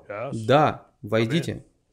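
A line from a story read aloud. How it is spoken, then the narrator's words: Very stern voice. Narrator (Russian): очень строгим голосом сказал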